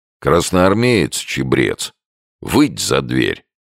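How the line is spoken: Deep bass voice. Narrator (Russian): пробасил

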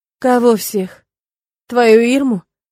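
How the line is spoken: Hollow, forced-out words. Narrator (Russian): Неожиданно для себя глухо выдавливаю я

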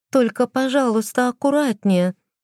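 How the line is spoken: Tearful pleading. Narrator (Russian): попросила она плаксивым голосом

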